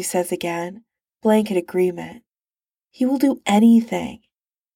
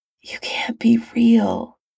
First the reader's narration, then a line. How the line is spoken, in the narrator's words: Tony whispers